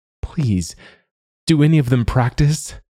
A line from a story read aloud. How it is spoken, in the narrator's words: she begged